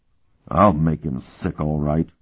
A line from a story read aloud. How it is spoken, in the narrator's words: Worgen muttered